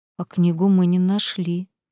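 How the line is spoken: Guilty mumble. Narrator (Russian): виновато пробормотал Крейн

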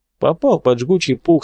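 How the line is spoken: Plain. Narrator (Russian): сказал он

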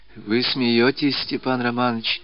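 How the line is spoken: Tearful quiet whisper. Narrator (Russian): тихо прошептала она со слезами на глазах

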